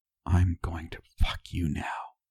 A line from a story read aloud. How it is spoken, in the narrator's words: I move to whisper in her ear